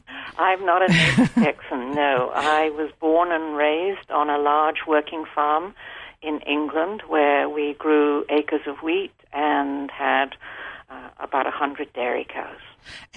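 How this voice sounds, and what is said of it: Non-Texan, English-sounding accent. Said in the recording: “by your accent, you're not a native Texan”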